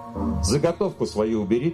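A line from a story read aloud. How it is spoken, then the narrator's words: Firm, angry. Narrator (Russian): твердо сказала Мила, сердито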